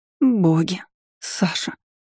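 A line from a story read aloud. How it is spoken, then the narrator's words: Breathless mutter. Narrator (Russian): забормотала она, часто глотая ртом воздух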